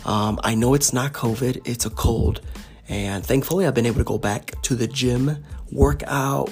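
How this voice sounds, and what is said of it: Raspy, congested voice from a cold. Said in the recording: “as you can hear from my voice, it's a little more raspy than usual, a little more congested than usual”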